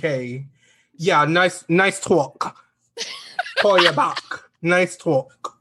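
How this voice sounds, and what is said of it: Put-on New Jersey accent. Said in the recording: “your Jersey accent”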